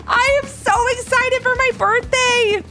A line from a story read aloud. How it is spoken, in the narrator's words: exclaimed